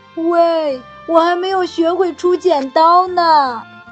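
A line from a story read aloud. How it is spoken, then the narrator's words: Gorilla shouting loudly. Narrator (Chinese): 大猩猩大声地喊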